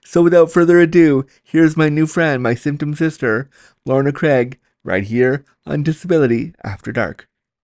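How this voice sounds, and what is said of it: Put-on podcast host voice. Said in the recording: “now I have my like pretending podcast voice on”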